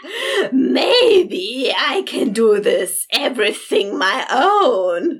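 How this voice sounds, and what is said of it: Insane impression of character Jem. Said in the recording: “your best insane Jem jiggle impression”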